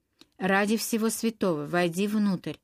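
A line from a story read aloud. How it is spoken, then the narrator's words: Hoarse whisper. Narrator (Russian): хрипло прошептала Индия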